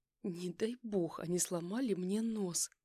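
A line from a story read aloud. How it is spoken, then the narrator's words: Moaning in pain. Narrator (Russian): Простонала я, чувствуя, как пульсирующая боль волнами разливается по всему лицу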